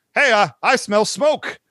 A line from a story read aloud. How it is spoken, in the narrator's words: Mutt cries